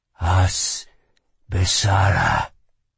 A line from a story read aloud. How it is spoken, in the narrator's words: he whispered in her ear